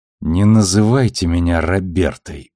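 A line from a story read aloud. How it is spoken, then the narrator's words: Through gritted teeth. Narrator (Russian): процедила Бобби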